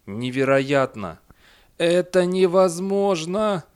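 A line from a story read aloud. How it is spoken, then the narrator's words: Moaning. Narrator (Russian): простонал Эндерби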